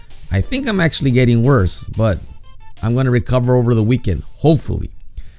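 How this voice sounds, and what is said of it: Rough, croaky sick voice. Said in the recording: “My voice is still crappy. I sound like a monster.”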